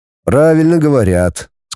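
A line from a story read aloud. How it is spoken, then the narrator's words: Said calmly. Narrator (Russian): сказал спокойно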